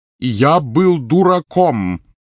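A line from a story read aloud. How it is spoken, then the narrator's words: Very loud exclamation. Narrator (Russian): воскликнул Перси так громко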